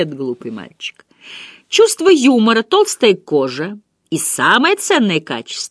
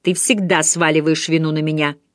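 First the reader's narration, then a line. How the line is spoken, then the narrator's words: Angry. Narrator (Russian): сердито сказал Вернон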